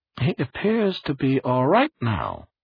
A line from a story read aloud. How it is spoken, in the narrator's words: Barris said smoothly into the phone